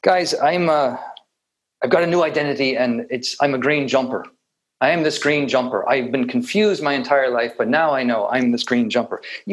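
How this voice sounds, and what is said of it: Put-on Irish accent. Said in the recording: “put in my Irish accent”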